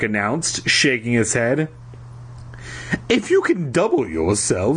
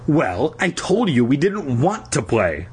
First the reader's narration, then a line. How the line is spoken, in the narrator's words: I replied sharply